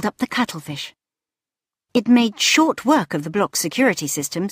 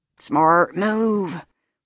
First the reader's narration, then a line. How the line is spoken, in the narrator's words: wheezed the caretaker